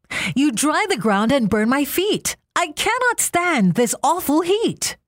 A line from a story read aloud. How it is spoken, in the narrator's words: he called out to Sun